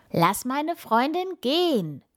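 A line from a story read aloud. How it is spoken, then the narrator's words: Shouting as loud as possible. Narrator (German): ruft er so laut er kann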